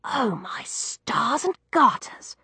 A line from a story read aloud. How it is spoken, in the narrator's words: I whispered